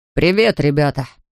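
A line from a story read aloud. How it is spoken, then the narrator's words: Deep bass voice. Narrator (Russian): сказал Фатти басом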